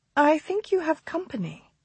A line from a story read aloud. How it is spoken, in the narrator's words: she murmured